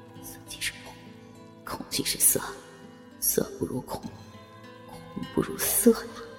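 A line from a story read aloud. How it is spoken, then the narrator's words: Inner murmur. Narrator (Chinese): 心中喃喃道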